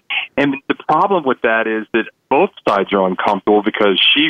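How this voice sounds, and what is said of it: Usual voice. Nothing is said of it.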